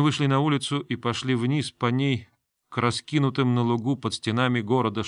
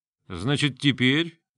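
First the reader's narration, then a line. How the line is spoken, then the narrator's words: Mocking question. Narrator (Russian): насмешливо вопросил Грон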